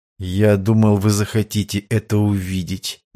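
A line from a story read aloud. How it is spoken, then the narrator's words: Muffled, hollow. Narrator (Russian): глухо ответил Острожский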